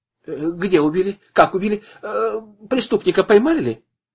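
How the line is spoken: Hurried question. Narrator (Russian): торопливо спросил Слепнев

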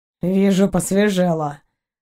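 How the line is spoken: Grumbling. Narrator (Russian): проворчал Заури

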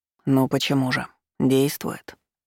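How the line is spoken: Calm reply. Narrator (Russian): спокойно отозвался Маркус

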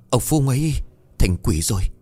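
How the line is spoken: Breathless panting after running. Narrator (Vietnamese): Chạy đi thật xa, Hậu bấy giờ mới thở hổn hển

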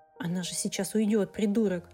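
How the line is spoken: Inner whisper. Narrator (Russian): шепнуло что-то внутри

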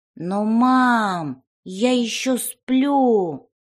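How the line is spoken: Drawling. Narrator (Russian): протянул он

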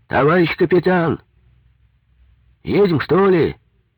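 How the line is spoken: Shouting. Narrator (Russian): крикнул с глиссера моторист

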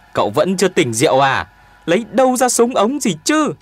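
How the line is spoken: Shouting back. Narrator (Vietnamese): Tuyền Béo hét trả

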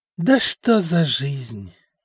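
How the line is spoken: Sorrowful sigh. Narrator (Russian): горестно вздохнул Стефан

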